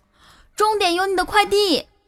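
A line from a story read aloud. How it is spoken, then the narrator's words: Shout. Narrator (Chinese): 他对女孩大喊一声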